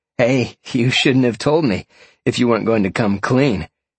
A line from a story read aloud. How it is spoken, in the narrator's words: Sean laughed